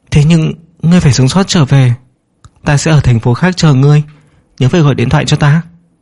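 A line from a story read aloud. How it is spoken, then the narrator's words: Trembling voice. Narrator (Vietnamese): nàng … thanh âm run rẩy nói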